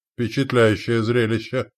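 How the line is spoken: Amused snort. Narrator (Russian): хмыкнул он

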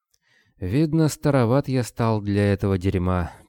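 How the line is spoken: Sad pronouncement. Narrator (Russian): печально изрек Кобылин

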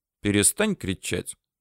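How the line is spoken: Calm request. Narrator (Russian): попросил спокойным тоном

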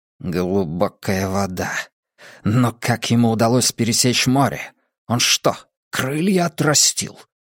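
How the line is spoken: Barely audible mutter. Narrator (Russian): еле слышно пробормотал Ледяной Песок

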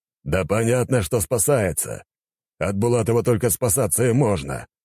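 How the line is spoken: Old man growling. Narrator (Russian): прорычал старик

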